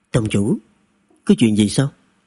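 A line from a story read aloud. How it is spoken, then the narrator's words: Lowered voice. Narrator (Vietnamese): Từ Thiệp hạ giọng nói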